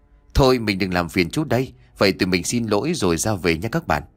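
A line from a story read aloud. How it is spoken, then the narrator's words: Laughing loudly. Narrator (Vietnamese): cười to nói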